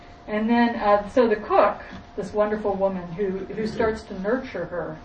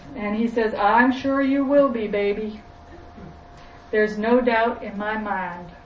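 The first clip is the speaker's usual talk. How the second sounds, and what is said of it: Attempted put-on Southern accent. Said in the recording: “I have to put on a southern accent. I forget what a southern accent is.”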